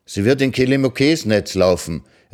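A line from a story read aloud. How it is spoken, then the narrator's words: Delighted call. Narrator (German): rief sie erfreut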